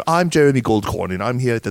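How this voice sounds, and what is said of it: Imitates another person's accent. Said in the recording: “I'm sorry, I didn't butcher your accent,”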